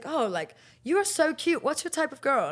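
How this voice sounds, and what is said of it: Decent put-on accent, likely British. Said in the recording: “your accent's not bad. Just go do that in the Burberry audition.”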